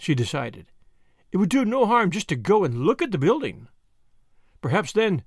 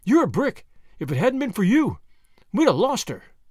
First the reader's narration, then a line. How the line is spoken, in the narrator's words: cried Tuppence